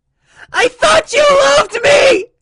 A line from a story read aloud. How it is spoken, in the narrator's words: She wailed